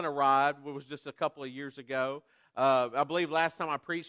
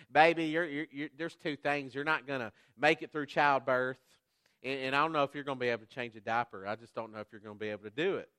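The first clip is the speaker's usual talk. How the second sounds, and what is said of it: Louisiana Southern accent. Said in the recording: “in her Louisiana Southern accent”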